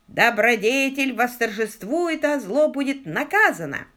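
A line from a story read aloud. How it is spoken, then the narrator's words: Shrill old voice. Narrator (Russian): раздался визгливый старческий голос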